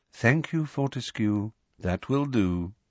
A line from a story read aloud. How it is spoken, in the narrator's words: said Dumbledore softly